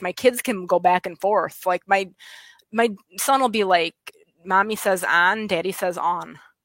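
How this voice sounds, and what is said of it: West Michigan accent, sing-song. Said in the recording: “my accent ... it's a West Michigan accent ... I think it's more sing song and women”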